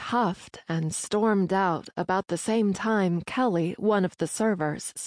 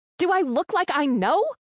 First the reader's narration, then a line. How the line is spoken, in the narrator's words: Loudly, Skyna replied